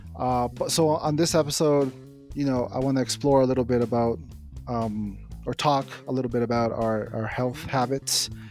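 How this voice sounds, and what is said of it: Tired, exhausted-sounding voice. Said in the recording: “You sound exhausted.”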